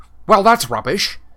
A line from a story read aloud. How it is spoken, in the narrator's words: snapped Harry